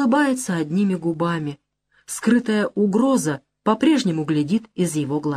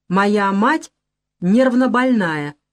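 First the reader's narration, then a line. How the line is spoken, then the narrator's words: Sharp clipped speech. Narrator (Russian): резко отчеканивает Маня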